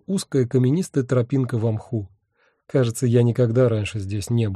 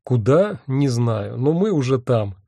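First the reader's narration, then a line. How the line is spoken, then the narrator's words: Laughing. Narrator (Russian): рассмеялся я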